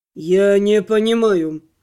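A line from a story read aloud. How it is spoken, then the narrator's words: Through teeth, after pause. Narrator (Russian): процедил Анхайлик после недолгой паузы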